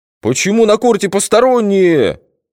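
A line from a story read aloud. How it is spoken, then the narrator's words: Coach yelling. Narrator (Russian): заорал тренер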